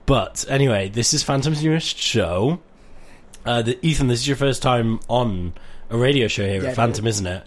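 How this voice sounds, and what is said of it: Voice rough from a cold. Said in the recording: “I'm currently getting out of a really bad cold, so my voice is really not doing its best ... for those of you wanting my luscious tones that I had last year, you're not getting that in this episode”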